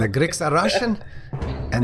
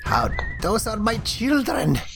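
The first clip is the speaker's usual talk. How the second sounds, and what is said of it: Put-on Russian accent. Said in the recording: “Make interesting accent. ... Russian. The Greeks are Russian.”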